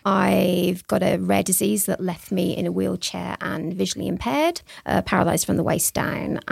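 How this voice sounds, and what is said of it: British accent. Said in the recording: “Probably be able to tell from the accent that I was born in Australia. No, I was born in the UK.”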